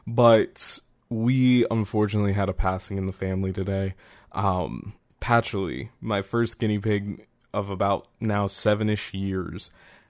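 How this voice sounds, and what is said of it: Somber, subdued voice. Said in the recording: “you can probably tell that my voice is a little more somber than usual”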